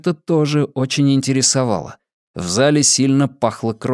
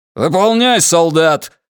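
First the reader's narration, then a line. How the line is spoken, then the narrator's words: Barked command. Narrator (Russian): гаркнул лейтенант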